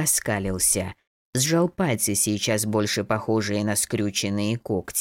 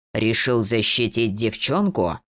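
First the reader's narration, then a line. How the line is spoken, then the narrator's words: Growl. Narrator (Russian): рыкнул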